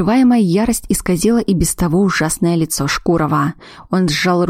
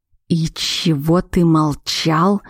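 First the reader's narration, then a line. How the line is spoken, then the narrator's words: Growling. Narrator (Russian): рыкнул на него ведьмак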